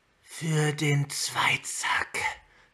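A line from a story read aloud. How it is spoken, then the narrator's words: Hissing. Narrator (German): zischte sie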